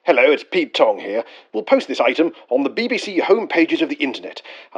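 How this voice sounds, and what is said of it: Old-fashioned radio announcer voice. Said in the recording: “old-fashioned radio voice will now quote it to us”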